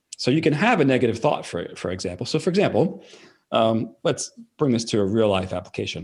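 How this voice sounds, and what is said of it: Fast-talking New York accent. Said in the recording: “I'm from New York. So New Yorkers tend to talk very fast, which I know I definitely talk fast... this New York accent”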